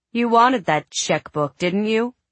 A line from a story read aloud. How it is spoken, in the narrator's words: She said icily